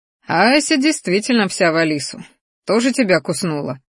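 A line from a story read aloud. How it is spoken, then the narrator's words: Chuckling. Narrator (Russian): хохотнул черный дракон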